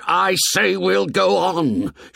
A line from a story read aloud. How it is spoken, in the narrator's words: shouted Ralph furiously